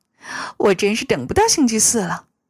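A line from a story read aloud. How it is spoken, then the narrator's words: Grinning. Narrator (Chinese): 阿加莎咧着嘴笑道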